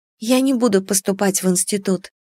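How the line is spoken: Quiet. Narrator (Russian): тихо ответила Аннушка

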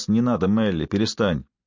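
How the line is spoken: Weary, not harsh. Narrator (Russian): Шай сказал не грубо, но словно уже в сотый раз

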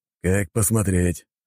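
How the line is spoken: Snorting. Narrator (Russian): хмыкнул Зейд

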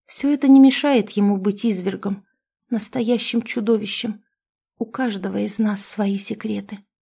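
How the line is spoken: Barely audible speech. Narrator (Russian): еле слышно проговорила

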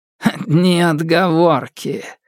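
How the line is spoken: Snort. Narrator (Russian): фыркнул Итейн

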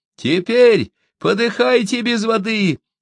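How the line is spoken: Crowd shouting. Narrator (Russian): кричали мы с толпы

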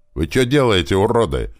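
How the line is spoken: Loud shout. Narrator (Russian): громко крикнул я

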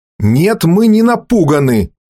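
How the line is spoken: Angry shout. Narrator (Russian): со злостью крикнул Грен

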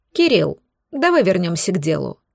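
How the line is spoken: Neutral tone. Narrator (Russian): проговорил он уже нейтральным тоном

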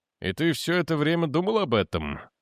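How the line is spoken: Sleepy question. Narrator (Russian): сонно переспросил Дженкинс

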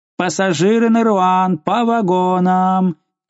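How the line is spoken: Shouted announcement. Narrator (Russian): крикнул кондуктор

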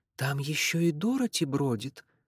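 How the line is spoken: Whisper. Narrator (Russian): прошептала

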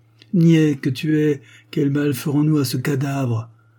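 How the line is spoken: Sneering laugh. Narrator (French): reprit Walker en ricanant

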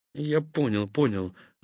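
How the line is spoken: Mumbling. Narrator (Russian): забормотал Зимогор

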